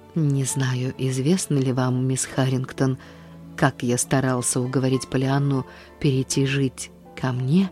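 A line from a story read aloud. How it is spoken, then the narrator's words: Very gentle, controlled voice. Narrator (Russian): как только он сумел овладеть своим голосом, спросить очень мягко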